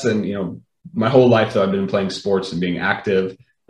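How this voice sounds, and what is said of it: American accent. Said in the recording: “you probably hear I have an American accent”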